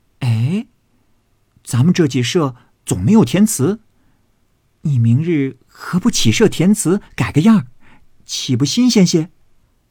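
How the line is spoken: Struck by a sudden idea. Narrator (Chinese): 黛玉偶然心动，便说

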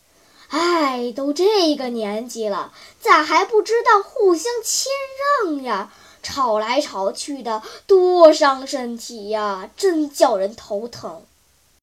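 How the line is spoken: Sighing, chubby boy. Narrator (Chinese): 小胖子叹了一口气

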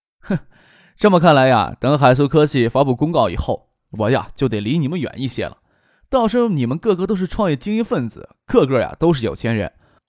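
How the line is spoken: Lip-smacking, laughing. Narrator (Chinese): 张克啧啧咂嘴，笑着说道

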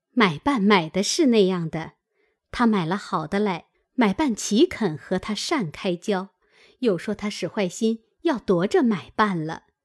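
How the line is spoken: Laughing. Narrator (Chinese): 平儿笑道

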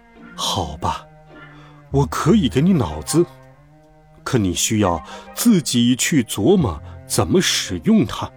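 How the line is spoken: Sighing. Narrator (Chinese): 奥芝叹了口气，说道

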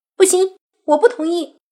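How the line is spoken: Loud. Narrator (Chinese): 洛言大声道

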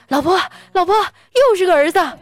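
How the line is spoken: Joyful loud shout. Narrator (Chinese): 我哥高兴坏了，就大声的喊

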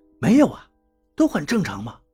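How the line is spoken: Quiet. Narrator (Chinese): 我小声跟他说道

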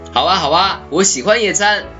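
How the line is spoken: Excited shout, clapping. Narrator (Chinese): 雪宝拍着小手喊道

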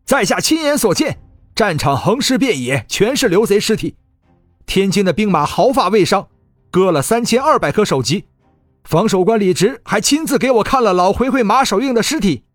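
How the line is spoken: Loud, insistent declaration. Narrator (Chinese): 那个斥候见众将疑虑，大声说道

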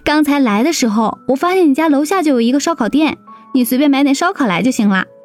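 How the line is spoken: Cheerful grinning. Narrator (Chinese): 林阳笑嘻嘻道

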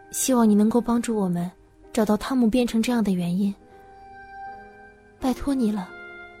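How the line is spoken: Soft whisper. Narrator (Chinese): 他轻声对我耳语道

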